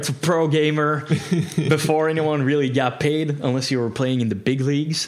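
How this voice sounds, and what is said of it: Midwestern American accent. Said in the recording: “my accent is a very Midwestern American”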